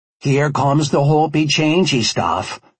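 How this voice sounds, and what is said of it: Put-on rural Alaskan accent. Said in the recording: “affecting my best rural Alaskan accent”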